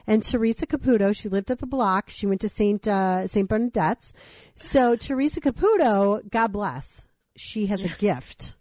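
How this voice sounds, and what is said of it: Put-on Long Island accent. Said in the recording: “I might have to do this in my Long Island accent.”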